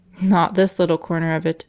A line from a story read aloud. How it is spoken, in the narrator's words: laughed Price